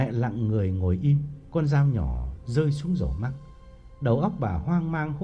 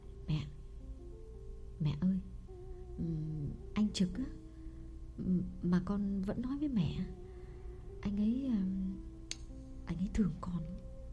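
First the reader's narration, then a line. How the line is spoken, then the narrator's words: Trembling uneasy confession. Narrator (Vietnamese): Phượng bứt rứt chịu không nổi, đành run run thú thật với mẹ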